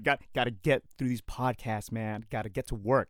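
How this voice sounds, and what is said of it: Rough, messed-up voice. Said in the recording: “my throat's so messed up ... my voice is a little bit messed up”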